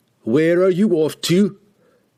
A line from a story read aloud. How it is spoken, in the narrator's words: he shouted after him